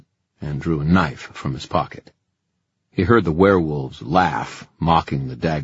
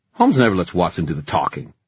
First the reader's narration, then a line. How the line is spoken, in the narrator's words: Ty snapped